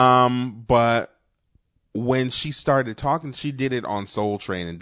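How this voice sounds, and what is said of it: Usual voice. Nothing is said of it.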